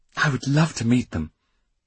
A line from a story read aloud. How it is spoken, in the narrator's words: Tatiana exclaimed